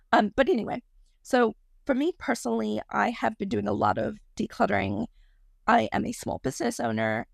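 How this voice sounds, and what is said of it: Croaky, frog-like voice. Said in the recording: “I have asthma and sometimes my voice gets really croaky ... I sound like a frog”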